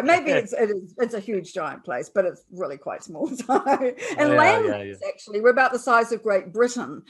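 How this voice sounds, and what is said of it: New Zealand accent. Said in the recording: “I'm a New Zealander, apart from my accent, of course, which people like to make fun of.”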